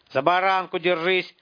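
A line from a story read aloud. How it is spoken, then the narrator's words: Shouted. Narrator (Russian): крикнул Тимур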